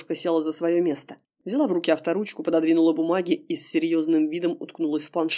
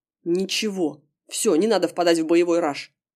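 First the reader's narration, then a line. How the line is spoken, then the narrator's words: Snort. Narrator (Russian): хмыкнул парень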